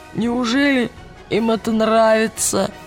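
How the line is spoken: Raspy wheeze after vomiting. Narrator (Russian): просипел Роджер после того, как его обильно вырвало

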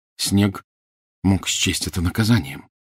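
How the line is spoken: Quiet. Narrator (Russian): негромко сказал Гарри

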